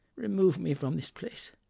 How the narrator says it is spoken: said Scrooge in a broken voice

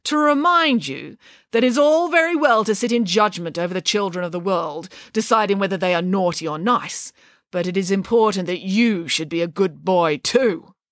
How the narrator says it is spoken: said Nanny Piggins sternly

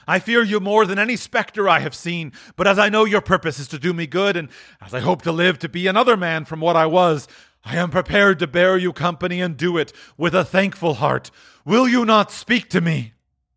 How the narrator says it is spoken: he exclaimed

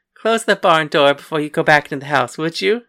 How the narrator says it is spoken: Cassandra asked, still trying not to laugh

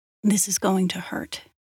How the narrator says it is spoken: I murmured

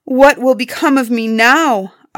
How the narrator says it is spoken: Ozma cried

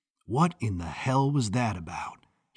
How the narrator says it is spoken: muttered

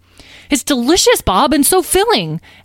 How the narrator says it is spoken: Azrael exclaimed

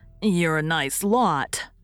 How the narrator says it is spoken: sneered Dan

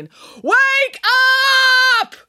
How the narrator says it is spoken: yelling

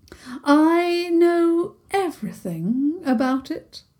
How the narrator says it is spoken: the mermaid said haughtily

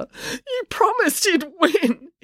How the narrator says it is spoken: he wailed

